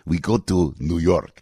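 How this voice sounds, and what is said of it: Put-on foreign accent. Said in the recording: “That's a Bugaski accent.”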